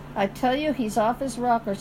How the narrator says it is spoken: said Kilcony

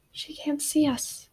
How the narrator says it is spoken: whispered

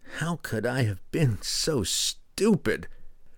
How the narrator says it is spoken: Kessel groaned

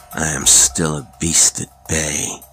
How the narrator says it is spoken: he said, in a low, hoarse voice

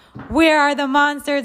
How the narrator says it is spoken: one of them shouted

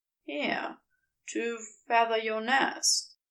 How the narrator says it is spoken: says softly

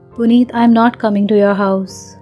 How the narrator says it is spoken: said, keeping my voice low and even with a lot of efforts

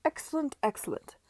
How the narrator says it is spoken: Parker was exclaiming in jocular tones

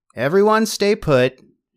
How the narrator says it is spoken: she shouted toward the front of the store

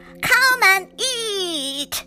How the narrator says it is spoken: shouted Big Witch

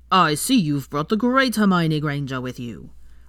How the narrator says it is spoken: John boomed to gain the attention of the ladies

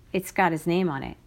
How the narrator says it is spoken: said Zero

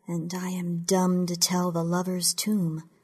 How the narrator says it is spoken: I say, as softly as I can, but the suit adjusts the volume so it's just as loud as everything else I've said

